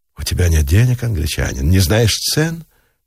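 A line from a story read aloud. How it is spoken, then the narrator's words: Impassive voice. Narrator (Russian): бесстрастным голосом проговорила официантка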